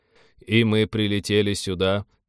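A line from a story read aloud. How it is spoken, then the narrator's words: Monotone alien-parasite voice. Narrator (Russian): монотонным голосом инопланетного паразита продолжал капитан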